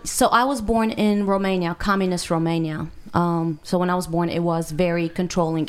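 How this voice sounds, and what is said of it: Foreign accent, not local. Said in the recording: “from your accent, that you're not necessarily from Nashville here”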